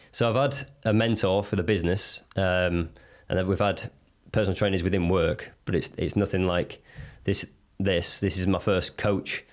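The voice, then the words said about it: Non-Scottish accent. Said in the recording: “you don't stay in Scotland, as you can tell probably by your accent”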